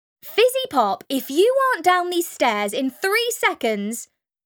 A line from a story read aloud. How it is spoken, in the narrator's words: Mum hollered